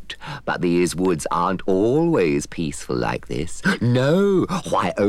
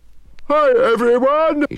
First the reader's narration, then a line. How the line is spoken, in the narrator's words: He shouted to no one at all